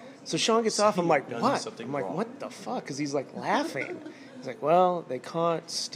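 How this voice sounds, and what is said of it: Usual voice. Nothing is said of it.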